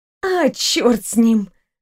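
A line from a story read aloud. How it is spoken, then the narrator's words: Sighed. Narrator (Russian): наконец вздохнула Анастасия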